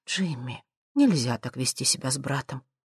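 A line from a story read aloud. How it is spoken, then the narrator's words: Quiet reproachful voice. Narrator (Russian): мать тихо говорит с укором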